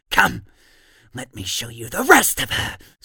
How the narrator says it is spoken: Stable screams

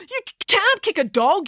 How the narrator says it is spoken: yelled Joe

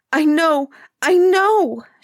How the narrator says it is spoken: she cried

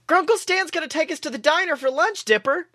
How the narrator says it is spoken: Mabel exclaimed

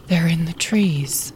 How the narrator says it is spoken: they whispered

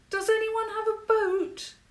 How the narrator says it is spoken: she called out

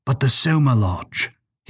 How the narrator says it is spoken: he went on, his tone lightening

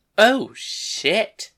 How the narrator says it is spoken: Angelica exclaimed

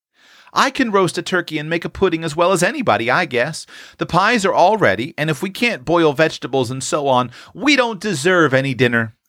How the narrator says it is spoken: cried Tilly, burning to distinguish herself and bound to enjoy to the utmost her brief authority

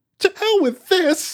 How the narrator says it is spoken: Thompson exclaimed

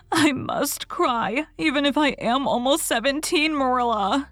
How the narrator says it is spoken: she sobbed

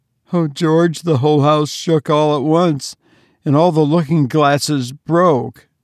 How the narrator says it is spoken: wailed his mother

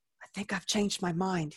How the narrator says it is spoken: he whispered, as if somehow the dead could hear us and would be offended by loud noises in the night

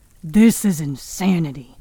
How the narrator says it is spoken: Pa growled

